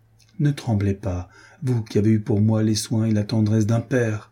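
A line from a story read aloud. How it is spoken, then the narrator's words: Exclaiming. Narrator (French): s'écria-t-elle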